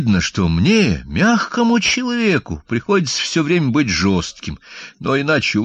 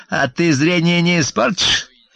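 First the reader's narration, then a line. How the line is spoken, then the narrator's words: Snide. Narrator (Russian): ехидно проговорила она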